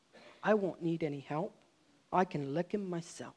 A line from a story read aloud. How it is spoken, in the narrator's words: the one big fellow, Tom, whispered